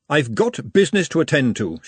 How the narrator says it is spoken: she said sternly

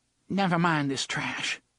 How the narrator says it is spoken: she said, and her voice only quivered a little

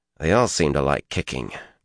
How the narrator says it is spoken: Matt muttered

